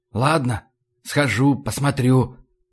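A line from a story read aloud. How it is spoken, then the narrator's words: Whispered. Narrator (Russian): прошептал я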